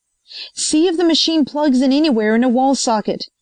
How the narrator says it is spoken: he shouted to Linane

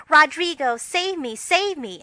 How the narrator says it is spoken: Joe with a melodramatic scream which was truly thrilling

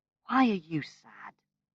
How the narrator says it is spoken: She asked gently

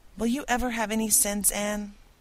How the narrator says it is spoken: groaned Marilla

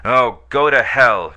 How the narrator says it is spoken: cried he

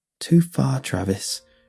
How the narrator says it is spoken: she muttered

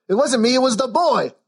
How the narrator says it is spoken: yelled Parlo as the constables lifted him bodily from his seat by the fire

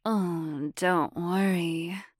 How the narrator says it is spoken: breathed Deirdre

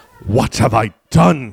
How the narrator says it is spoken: He hissed, frantic

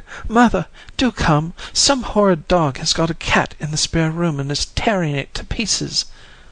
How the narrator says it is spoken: they cried

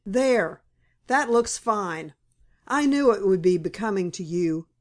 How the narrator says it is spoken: cried Joe

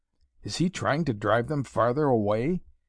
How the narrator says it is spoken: Conrad muttered angrily

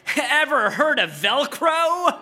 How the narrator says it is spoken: You said with a laugh

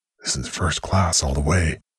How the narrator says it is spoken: Rannoch whispered to himself

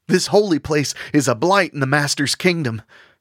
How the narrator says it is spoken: Stapleton cried out

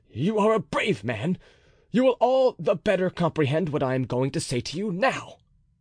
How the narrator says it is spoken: said he to the officer in an agitated voice

